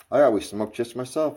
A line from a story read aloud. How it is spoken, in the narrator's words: I answered